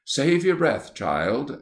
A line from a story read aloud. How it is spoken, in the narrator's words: exclaimed the Rector